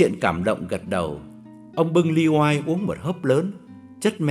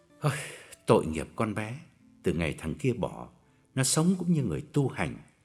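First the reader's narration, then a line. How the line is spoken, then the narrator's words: Low, sorrowful voice. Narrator (Vietnamese): Ông chớp mắt hạ giọng bùi ngùi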